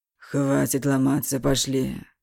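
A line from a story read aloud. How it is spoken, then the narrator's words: Drunk angry heated whisper. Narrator (Russian): Уже всерьез, пьяный, злой, он горячо зашептал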